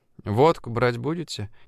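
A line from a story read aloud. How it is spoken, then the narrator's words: Quiet shop clerk question. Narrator (Russian): негромко спросила продавщица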